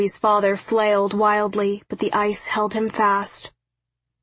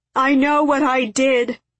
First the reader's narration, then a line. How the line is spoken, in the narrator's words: he shouted through his tears